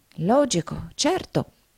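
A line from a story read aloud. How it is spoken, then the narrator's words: Murmured. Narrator (Italian): mormorò Nickleby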